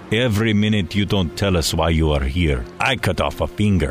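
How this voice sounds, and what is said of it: Put-on Russian accent. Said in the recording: “my attempt at a Russian accent”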